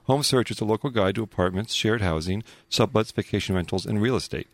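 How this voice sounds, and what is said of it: Smooth radio announcer voice. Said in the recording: “Wow, that was smooth. ... He's developing a real radio voice. ... You've got the voice.”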